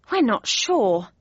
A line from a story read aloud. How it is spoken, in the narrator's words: said Joffy sadly